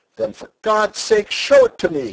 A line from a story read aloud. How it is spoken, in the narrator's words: he cried